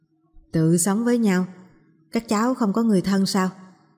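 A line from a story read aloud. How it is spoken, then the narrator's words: Child's lowered voice. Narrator (Vietnamese): Đứa bé hạ giọng nói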